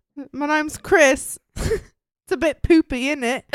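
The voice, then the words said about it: Put-on British accent. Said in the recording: “that stupid ass, terrible British accent”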